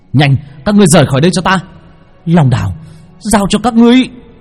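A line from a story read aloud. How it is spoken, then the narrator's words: Shouting. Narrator (Vietnamese): Long Vân hét lên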